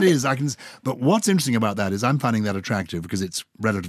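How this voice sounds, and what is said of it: Usual voice. Nothing is said of it.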